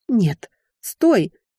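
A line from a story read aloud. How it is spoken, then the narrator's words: Frightened breath. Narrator (Russian): испуганно выдохнула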